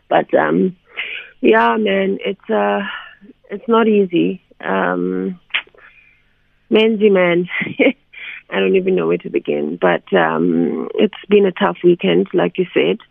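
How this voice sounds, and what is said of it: Groggy, just-woken-up voice. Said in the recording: “My voice is still asleep.”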